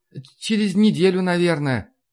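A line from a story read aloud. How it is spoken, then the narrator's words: Sighing. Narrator (Russian): вздохнула Маша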